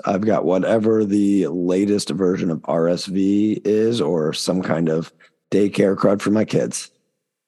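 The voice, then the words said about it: Raspy, hoarse voice. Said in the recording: “raspy, hoarse voice”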